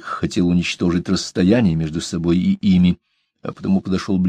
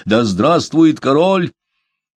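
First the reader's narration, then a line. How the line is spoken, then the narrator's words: Loud proclamation. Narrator (Russian): законоредом, они громко возгласили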